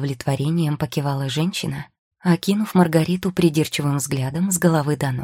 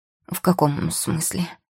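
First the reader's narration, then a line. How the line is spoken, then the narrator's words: Sleepy. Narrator (Russian): сонно моргнула Маргарита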